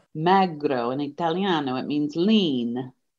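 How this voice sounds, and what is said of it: Put-on Italian accent. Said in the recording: “the Italiano accent”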